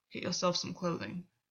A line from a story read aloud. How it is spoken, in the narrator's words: Gwyn muttered